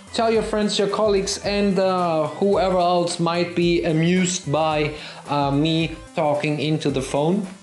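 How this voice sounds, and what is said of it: German accent. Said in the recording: “with my German accent”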